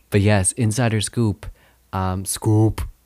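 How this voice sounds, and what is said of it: Word sounding French-Canadian accented. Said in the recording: “that was like a French-Canadian accent.”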